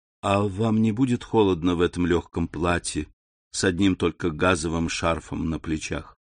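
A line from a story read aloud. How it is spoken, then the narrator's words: Plain. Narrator (Russian): сказал он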